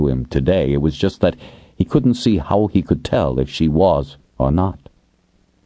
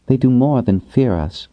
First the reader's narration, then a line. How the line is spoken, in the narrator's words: said calmly